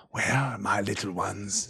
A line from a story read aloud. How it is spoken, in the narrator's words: said Grishnak in a soft whisper